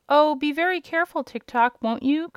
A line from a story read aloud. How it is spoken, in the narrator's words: cried the girl